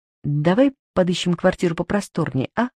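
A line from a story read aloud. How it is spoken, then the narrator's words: Unexpectedly sharp voice. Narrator (Russian): мой голос звучит неожиданно резко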